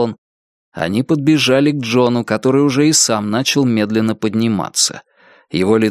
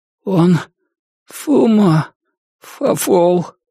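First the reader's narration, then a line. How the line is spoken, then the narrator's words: Weak pained strain. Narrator (Russian): выдавил Джон вялым, страдальческим голосом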